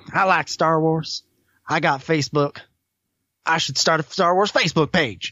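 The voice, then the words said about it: Imitates another person's voice. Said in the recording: “That is exactly how he sounds... I can't do quite as good an impression as Johnny Grasso can, but I'm working on it.”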